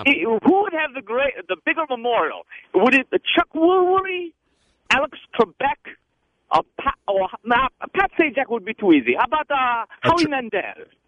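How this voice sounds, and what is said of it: Put-on hybrid accent. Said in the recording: “What hybrid accent are you attempting to do here?”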